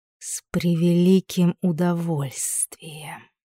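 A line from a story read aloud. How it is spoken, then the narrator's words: Snakelike hiss. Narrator (Russian): прошипела Лейда как змея, а не как паучиха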